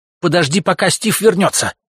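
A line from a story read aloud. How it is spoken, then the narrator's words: Woman shouting from window. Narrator (Russian): крикнула женщина из окна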